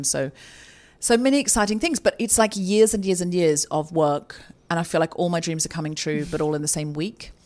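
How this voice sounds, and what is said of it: Excited, slightly hyper voice. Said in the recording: “slightly adrenaline. You can hear it in my voice. Slightly hyper ... Slightly hyper.”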